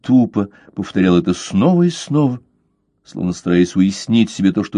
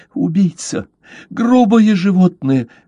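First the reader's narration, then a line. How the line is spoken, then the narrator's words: Shrieking. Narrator (Russian): взвизгнула она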